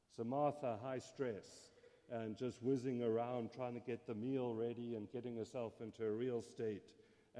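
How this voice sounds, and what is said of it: South African English accent. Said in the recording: “my accent, I grew up in South Africa”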